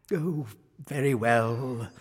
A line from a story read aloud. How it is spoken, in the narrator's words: sighed the king